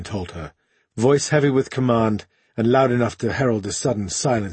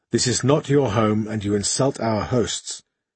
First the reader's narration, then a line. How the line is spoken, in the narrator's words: he went on in a quieter tone